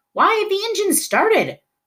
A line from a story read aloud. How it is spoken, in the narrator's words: one of the passengers yelled